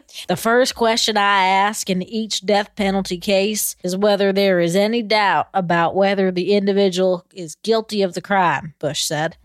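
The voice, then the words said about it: Imitation of George W. Bush's accent. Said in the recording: “I feel like I need to do it in his accent. ... That wasn't very good, but I tried.”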